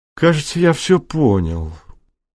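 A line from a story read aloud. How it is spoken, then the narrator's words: Tired. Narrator (Russian): устало сказал Халфин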